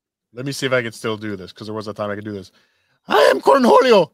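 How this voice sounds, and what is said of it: Usual voice. Nothing is said of it.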